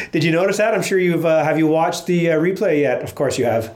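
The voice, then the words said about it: Voice deeper than normal, congested. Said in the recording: “I got a bad cold ... You can probably hear my sexy voice is a little deeper than normal.”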